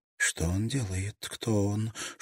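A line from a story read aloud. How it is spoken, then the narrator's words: Whispered question. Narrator (Russian): шепотом спросила Ин-Си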